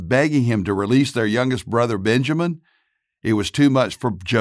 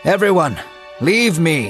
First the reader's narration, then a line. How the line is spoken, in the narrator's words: he shouted